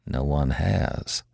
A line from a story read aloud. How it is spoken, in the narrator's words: Hank said, his voice quiet